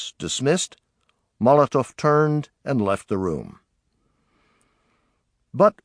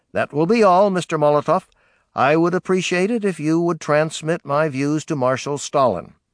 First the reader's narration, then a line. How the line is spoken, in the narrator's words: Truman saying curtly